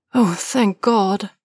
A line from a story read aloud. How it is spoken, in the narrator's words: Niall breathed weakly